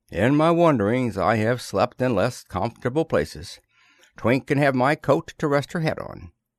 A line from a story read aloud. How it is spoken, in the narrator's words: he sighed